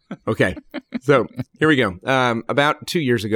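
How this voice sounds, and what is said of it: Usual voice. Nothing is said of it.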